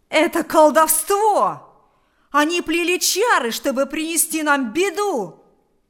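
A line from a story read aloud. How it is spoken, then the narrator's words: Shouting. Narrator (Russian): закричал Кузька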